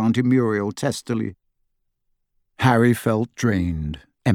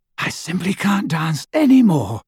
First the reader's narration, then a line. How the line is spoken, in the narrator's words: she panted